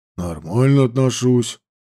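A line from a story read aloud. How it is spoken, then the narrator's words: Confused. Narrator (Russian): ответил он растерянно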